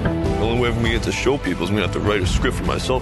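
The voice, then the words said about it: Sylvester Stallone impression. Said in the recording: “Sylvester Stallone ... Actor Anthony Ippolito plays him in the movie, and he does a pretty good impression.”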